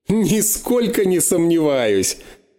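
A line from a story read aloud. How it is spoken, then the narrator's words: Loud laughter. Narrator (Russian): Расхохотался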